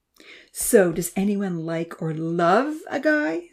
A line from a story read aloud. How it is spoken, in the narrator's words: Santa giggled